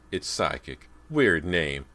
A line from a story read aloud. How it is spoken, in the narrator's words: Callie laughed